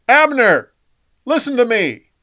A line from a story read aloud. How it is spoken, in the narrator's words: a safe distance on the top of the next hill, David yelled at Saul's camp